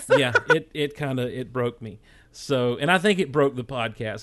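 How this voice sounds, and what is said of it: Strained, worn-out voice. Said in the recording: “My voice is still kind of shot from doing a Bad Impressions Theater”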